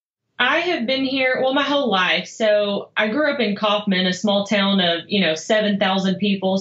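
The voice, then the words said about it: Mild Texas Southern accent. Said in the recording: “You can't hear the Texas accent going on? ... A little bit. I was going to say somewhere down south.”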